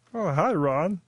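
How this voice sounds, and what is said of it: Imitates another person's voice. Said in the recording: “That is a great impression of him.”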